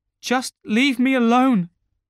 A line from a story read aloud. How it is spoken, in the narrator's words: she cried